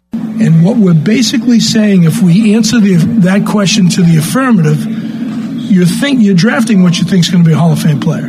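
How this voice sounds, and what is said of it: Boston or New York accent. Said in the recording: “Just a New York accent? ... Isn't that Boston? ... that sounded more like Boston.”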